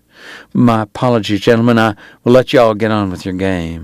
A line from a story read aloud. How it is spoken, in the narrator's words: he said